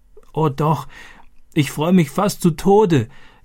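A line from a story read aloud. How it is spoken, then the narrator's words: Gasping, laughing and crying. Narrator (German): japste sie und lachte und weinte gleichzeitig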